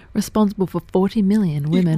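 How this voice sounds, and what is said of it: Radio announcer voice. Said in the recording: “My radio voice good or what?”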